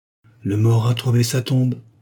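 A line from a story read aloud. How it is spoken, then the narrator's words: Solemn. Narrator (French): prononça Joseph Blauer d'une voix solennelle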